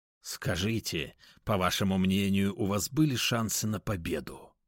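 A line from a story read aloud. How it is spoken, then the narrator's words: Unexpectedly even voice. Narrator (Russian): неожиданно ровным голосом произнес Феликс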